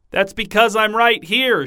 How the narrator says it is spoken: shouted Delphina

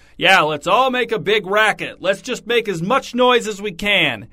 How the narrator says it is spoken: shouting

